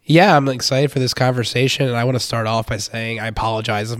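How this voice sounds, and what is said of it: Hoarse, deep, worn-out voice. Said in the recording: “my voice is terrible. It's actually not from cheering at the game. It gave out on Saturday. ... I have the Calais Campbell effect right now. ... Calais Campbell's voice is so deep”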